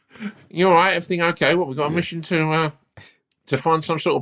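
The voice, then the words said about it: Imitates another person's voice. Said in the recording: “I've been doing that voice ... watching your daughter do the impression of me”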